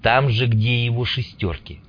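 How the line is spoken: Muttered. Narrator (Russian): пробурчал Мун

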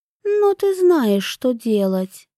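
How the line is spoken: Calm. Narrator (Russian): спокойно сказала Аюне

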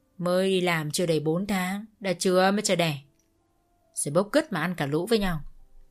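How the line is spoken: Cold. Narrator (Vietnamese): bà lạnh lùng nói

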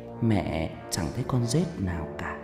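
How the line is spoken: Mother's whisper. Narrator (Vietnamese): tiếng mẹ tôi thì thầm

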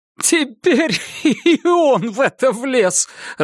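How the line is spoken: Laughing. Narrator (Russian): расхохотался Гарри

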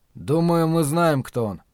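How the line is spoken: Calm. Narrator (Russian): спокойно сказал Ллойд

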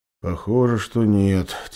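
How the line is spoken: Bear's heavy sigh. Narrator (Russian): тяжело вздохнул медведь

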